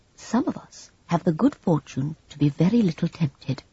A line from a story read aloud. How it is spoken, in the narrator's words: he said gently